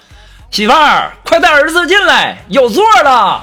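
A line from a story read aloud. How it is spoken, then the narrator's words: Loud shout. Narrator (Chinese): 后面大喊一声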